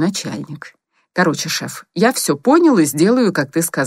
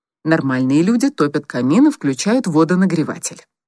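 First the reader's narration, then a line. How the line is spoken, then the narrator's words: Calm. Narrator (Russian): спокойно ответил Павел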